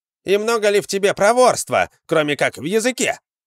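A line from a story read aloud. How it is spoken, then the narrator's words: Shouted. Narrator (Russian): крикнул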